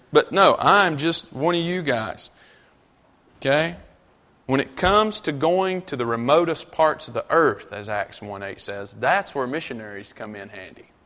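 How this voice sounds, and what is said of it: North Carolina country accent. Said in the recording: “I'm just a old country boy from North Carolina... Except my accent.”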